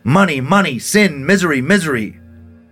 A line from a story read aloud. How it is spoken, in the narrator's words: Elizabeth often cried out